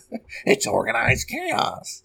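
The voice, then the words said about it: Joker-style villain voice. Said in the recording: “that Joker impression. It was a little too real.”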